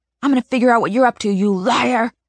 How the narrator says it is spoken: Mom screams

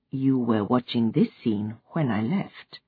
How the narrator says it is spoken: she said quietly

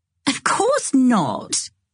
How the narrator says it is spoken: said Charlotte, laughing

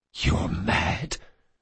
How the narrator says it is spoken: the assassin whispered

